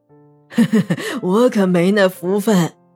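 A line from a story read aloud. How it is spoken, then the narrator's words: Stunned, then sheepish laugh. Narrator (Chinese): 李博阳听后愣了一下，马上憨笑道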